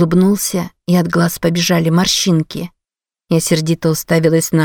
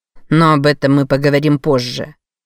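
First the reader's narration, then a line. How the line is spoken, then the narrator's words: Commanding tone. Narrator (Russian): добавил он непререкаемым тоном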